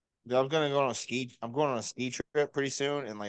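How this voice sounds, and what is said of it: Usual voice. Nothing is said of it.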